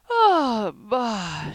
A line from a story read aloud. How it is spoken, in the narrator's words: yawned